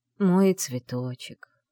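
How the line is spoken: Exhausted breath. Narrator (Russian): изнеможенно выдохнул он

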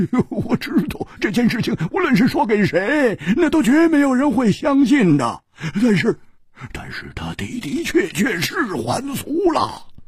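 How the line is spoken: Wry, bitter laugh. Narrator (Chinese): 胡铁花苦笑着说

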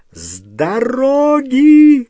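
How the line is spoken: Shout. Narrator (Russian): крикнула миссис Уизли трем девушкам

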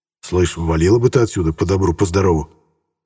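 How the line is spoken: Quietly, in Russian. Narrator (Russian): По-русски негромко произнес я

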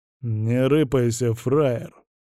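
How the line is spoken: Hoarse, unfamiliar voice. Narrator (Russian): проговорил он хриплым, незнакомым голосом

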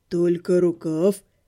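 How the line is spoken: Hoarse deep baritone. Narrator (Russian): хриплым, глубоким баритоном спросил Живка

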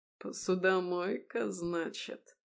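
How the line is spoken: Snorting. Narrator (Russian): Он хмыкнул, игнорируя мое замечание

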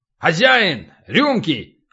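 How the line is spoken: Loud bark. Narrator (Russian): гаркнул Полубой

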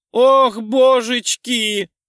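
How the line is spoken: Delighted squeal. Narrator (Russian): завизжала подруга, восхищенно

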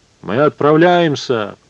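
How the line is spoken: Booming, resonant voice. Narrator (Russian): протрубил Эдипон зычным голосом

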